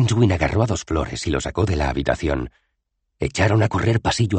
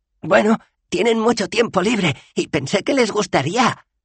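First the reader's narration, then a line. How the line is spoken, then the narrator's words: Panting. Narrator (Spanish): jadeó Dos Flores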